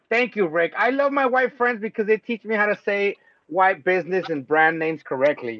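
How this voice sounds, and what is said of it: Paisa accent. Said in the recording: “my Paisa accent ruined brands”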